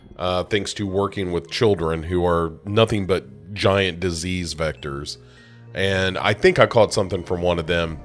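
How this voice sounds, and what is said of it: Slightly congested voice with a cold. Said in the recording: “I have a little bit of a cold”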